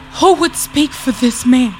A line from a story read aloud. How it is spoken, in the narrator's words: She gasped, calling out to whatever spirits were tethered by destiny to the looming form above her